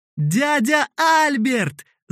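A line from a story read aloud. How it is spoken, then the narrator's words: Children shouting. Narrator (Russian): закричали дети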